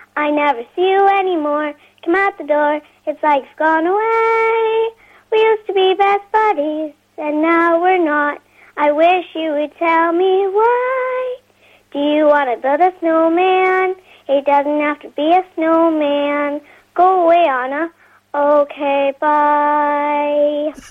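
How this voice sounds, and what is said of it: Child singing in American accent. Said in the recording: “you even did an American accent.”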